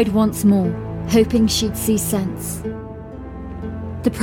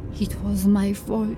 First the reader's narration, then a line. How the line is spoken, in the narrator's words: she said softly, and then louder